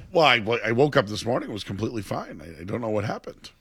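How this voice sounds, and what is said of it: Strained, failing voice. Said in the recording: “My voice just stopped... all of a sudden, I can't speak”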